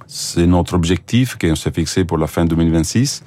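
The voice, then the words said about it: Italian accent speaking French. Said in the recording (French): “on l'a un petit peu entendu à votre accent charmant, totalement de glace italienne”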